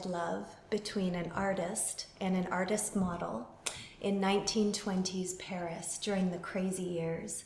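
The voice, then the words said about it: Canadian accent. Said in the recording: “accents. You're obviously not from Ireland or England, so you're obviously from Canada”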